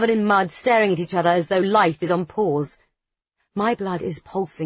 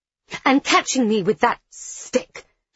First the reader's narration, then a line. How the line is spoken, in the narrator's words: she exclaims before I can respond